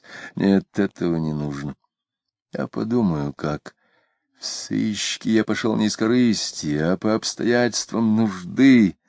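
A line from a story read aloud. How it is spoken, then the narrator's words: Drunken mumbling. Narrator (Russian): забормотал Митрофанов, выпив водки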